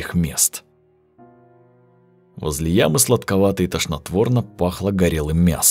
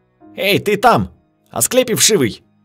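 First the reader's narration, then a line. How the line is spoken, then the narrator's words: Shouting officer. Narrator (Russian): закричал офицер, узнав Волгина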